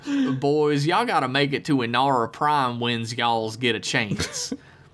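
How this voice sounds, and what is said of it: Put-on Southern US accent. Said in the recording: “He does the southern accent.”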